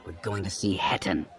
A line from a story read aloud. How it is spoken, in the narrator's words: Syndra snarled